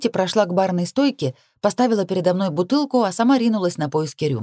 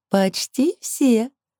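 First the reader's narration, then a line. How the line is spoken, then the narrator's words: Laughing chuckle. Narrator (Russian): хохотнула Лилит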